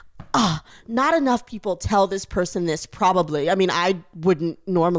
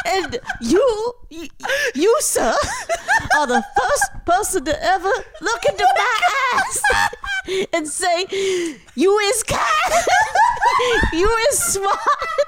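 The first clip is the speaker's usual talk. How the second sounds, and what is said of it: Put-on accent. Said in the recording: “You have an accent now?”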